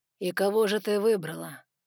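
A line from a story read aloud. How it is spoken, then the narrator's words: Soft with growling undertone. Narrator (Russian): Мягко поинтересовался Саймон, но в его голосе послышалось рычание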